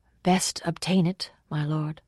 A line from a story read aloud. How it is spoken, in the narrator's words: said Tyrio Octomo in her silvery voice